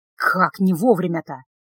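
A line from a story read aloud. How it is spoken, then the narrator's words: Muttering. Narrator (Russian): пробурчал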